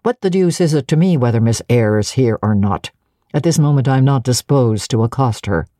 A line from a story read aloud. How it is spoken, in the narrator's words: said he, and there was something in the forced, stiff bow, in the impatient yet formal tone